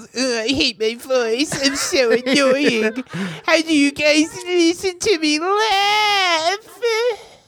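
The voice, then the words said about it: Imitates another person's voice. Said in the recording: “great impression ... It's spot on”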